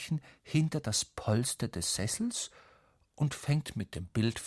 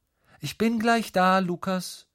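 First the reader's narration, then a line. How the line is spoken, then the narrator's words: Mother calling from another room. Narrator (German): ruft Mama aus dem Badezimmer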